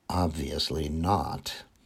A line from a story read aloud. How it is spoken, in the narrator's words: Albert commented dryly